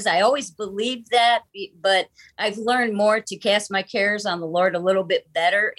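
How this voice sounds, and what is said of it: Michigan Great Lakes accent. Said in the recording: “we kid ... a lot because of her Michigan accent ... It's what I call a Great Lakes accent”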